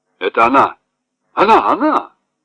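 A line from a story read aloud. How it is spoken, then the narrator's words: Exclaiming. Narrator (Russian): воскликнул полковник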